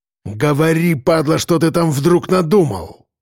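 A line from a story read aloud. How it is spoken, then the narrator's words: Menacing growl. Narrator (Russian): прорычал кирпич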